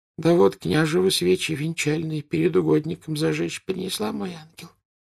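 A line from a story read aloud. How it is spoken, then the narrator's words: With a sigh. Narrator (Russian): сказала она, вздохнув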